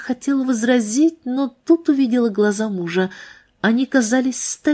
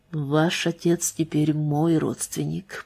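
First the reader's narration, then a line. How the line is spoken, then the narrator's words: Quiet but firm. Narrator (Russian): произнес он тихо, но твердо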